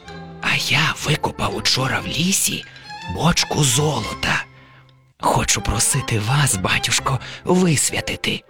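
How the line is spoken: Whispered. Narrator (Ukrainian): каже пошепки

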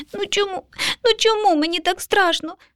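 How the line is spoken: Sobbing small child. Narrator (Ukrainian): схлипнув малюк

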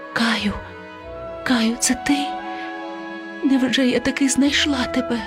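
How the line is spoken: Whispering. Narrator (Ukrainian): вона прошепотіла

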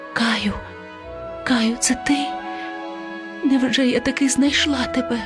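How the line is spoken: Whispered. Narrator (Ukrainian): прошепотіла

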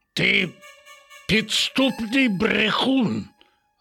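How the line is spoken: Growling. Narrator (Ukrainian): загарчав на нього Рекс

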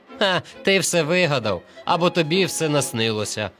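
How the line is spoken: Laughing. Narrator (Ukrainian): сміялися вони

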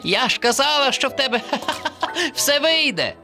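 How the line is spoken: Laughing. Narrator (Ukrainian): Засміялася черепашка

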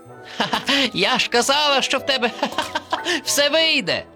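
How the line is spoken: Laughing through words. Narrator (Ukrainian): засміялася черепашка

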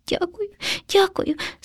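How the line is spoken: Frightened sob. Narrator (Ukrainian): схлипнув наляканий хом'ячок

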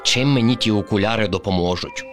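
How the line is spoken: Grumble. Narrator (Ukrainian): буркнув Кріт

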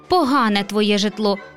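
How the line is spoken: Capricious guest grumbling. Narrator (Ukrainian): буркнула вередлива гостя

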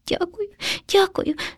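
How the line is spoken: Frightened sob. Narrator (Ukrainian): схлипнув наляканий хом'ячок

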